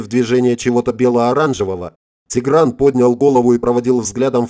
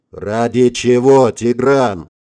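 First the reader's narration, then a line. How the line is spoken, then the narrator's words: Impatient growl. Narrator (Russian): нетерпеливо рыкнул дядя Горегин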